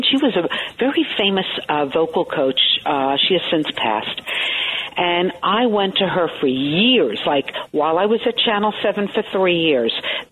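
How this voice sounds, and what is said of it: New York Brooklyn accent. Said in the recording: “you sound very New York ... a Brooklyn sound”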